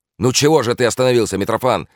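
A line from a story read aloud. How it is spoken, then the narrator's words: Irritated shout. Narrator (Russian): раздражительно закричал Бобров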